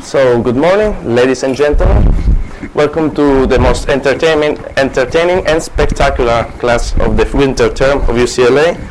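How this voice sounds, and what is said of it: Italian-accented English. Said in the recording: “As you can hear, I'm a Japanese, not really, I'm Italian ... sticking with my Italian one ... my weird accent”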